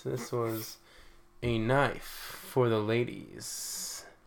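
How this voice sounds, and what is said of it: Smooth, suave voice. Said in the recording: “put on my smooth voice.”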